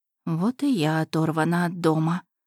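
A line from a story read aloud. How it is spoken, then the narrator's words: Muttered under breath. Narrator (Russian): пробормотала себе под нос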